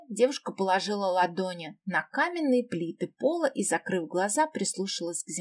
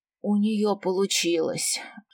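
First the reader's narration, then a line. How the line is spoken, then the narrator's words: Relieved exhale. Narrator (Russian): Облегченно выдохнул Элениум Аэт Генваэль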